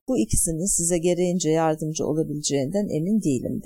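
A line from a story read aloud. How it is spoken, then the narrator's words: Plain. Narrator (Turkish): dedi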